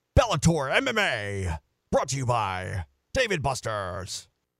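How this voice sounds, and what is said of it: Imitates a promo announcer voice. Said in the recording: “I try to do that Bellator voice, by the way. Like that guy. ... I think it's a good impersonation. ... That's actually not too bad.”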